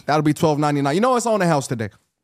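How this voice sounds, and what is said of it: Convincing put-on accent. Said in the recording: “your accent is fucking incredible ... It's fucking good.”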